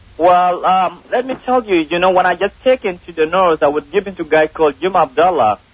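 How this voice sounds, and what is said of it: Speaks with a foreign accent. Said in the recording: “you get the accent and everything. I got to interpret.”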